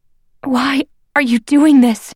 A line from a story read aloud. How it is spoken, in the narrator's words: cried